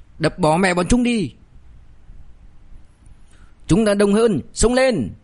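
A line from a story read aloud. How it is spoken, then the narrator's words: Hot-blooded shout. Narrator (Vietnamese): còn đang nóng máu, có tên hét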